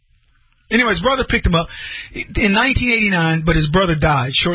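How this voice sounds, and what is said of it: Usual voice. Nothing is said of it.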